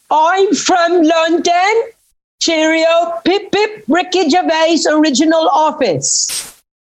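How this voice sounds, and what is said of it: Unconvincing put-on British accent. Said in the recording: “I've got a better British accent ... what the fuck is that? Where are you supposed to be from, mate?”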